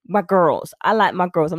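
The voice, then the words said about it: Terrible put-on American accent. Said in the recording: “I'm doing a terrible American accent”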